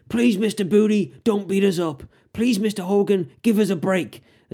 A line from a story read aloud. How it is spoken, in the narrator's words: He tries to mock Arn and Old Yeller, impersonating them